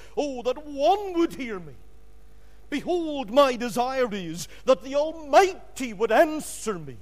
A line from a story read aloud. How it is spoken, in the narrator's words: Job in Job 31 and 35 cried